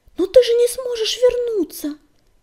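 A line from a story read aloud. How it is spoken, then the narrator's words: Frightened exclamation. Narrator (Russian): Испуганно воскликнула песчаная буря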